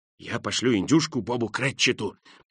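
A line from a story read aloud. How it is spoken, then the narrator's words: Mumbling, laughing with delight. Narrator (Russian): пробормотал Скрудж, и от восторга так и покатился со смеху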